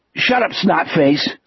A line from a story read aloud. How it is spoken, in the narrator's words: Sonny snapped